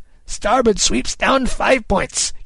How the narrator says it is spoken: Kidd cried

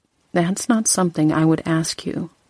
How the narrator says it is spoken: Sam said quietly

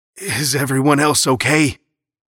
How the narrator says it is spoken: the driver asked breathlessly

